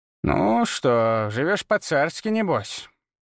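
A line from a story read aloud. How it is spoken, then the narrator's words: Approving grumble. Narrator (Russian): проворчала она, но в голосе слышалось одобрение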